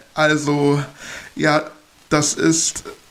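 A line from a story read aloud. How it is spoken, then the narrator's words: Stammering. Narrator (German): stotterte ich herum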